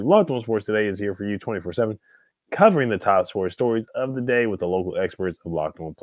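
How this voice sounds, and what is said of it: Raspy, hoarse voice. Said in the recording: “my voice is a little raspy. I kind of sound like B.B. King a little bit, Louis Armstrong ... I'm a little under the weather right now”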